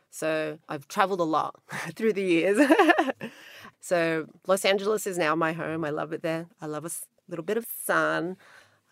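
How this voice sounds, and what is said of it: Australian accent. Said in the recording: “I can hear an Australian twang”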